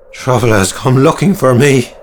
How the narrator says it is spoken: cried

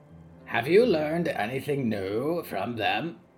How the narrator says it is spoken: the omen croaked

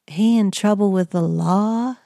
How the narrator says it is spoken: Amanda drawled

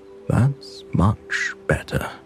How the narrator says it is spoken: said softly a tone of contentment in his voice

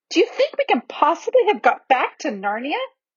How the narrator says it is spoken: exclaimed Lucy

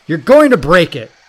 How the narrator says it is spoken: he bellowed

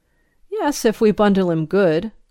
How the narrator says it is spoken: responded dryly

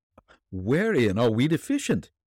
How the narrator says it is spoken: he asked eagerly

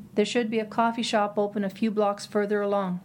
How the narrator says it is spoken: Jim said

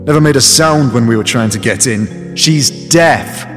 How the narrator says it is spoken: I called out

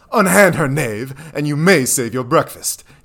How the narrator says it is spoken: yelled Jack

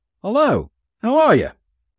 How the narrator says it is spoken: The man exclaimed

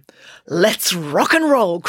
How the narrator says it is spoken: cried Loretta with a crazed gleam in her eye

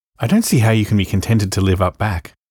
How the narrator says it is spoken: sighed Cousin Georgiana

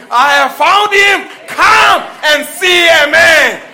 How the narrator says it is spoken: screamed at the top of her voice

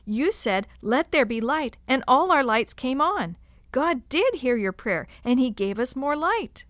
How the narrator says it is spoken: The boys jumped up and down, shouting

